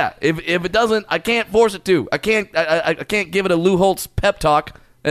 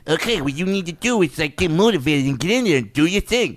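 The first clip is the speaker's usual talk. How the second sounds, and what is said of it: Slurred imitation of another person's voice. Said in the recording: “do a slurred speech ... my Lou Holtz impression. Not that good.”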